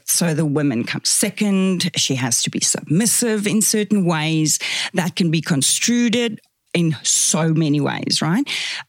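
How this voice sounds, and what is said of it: Afrikaans South African accent. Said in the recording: “I'm Afrikaans, is my first language, hence the weird accent.”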